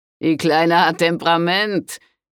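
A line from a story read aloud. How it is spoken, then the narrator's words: Laughing call. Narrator (German): rief Silvio Dicudi lachend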